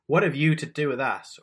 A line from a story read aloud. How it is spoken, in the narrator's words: a person with an evil spirit screams